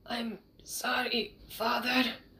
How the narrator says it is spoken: he whispered

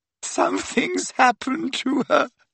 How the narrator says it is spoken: sobbed Leanne

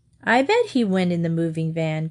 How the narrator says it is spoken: Chris said

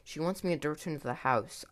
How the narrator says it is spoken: I said breathlessly

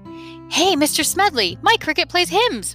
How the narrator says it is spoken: Mario blurted out

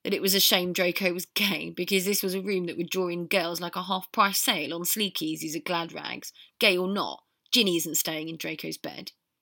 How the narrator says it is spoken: Fred said, with a smile more for the memory of laughter than any laughter now

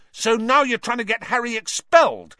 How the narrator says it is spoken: said Ron furiously

